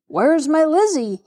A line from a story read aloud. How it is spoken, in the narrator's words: he cried wildly